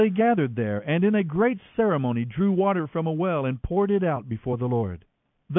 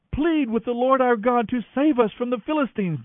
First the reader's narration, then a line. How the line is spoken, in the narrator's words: they begged Samuel